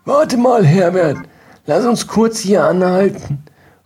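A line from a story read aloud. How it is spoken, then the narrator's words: Calling out. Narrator (German): rief mir Marianne zu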